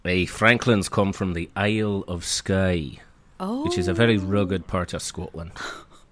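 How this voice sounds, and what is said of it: Dodgy put-on Scottish accent. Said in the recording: “Pretty dodgy accent, actually ... ripped out an accent this early on and such an average one at that”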